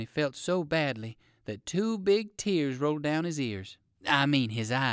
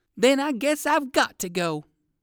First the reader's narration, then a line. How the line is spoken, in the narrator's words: exclaimed Uncle Wiggily